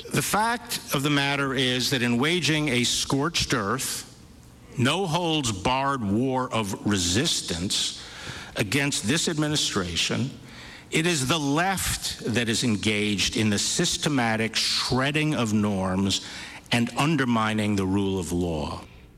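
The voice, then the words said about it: New York accent. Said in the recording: “I love his New York accent.”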